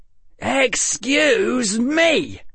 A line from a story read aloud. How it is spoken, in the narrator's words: shouted Harry at the top of his lungs